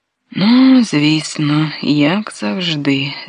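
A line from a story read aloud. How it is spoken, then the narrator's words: Sighing. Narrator (Ukrainian): зітхнула Софія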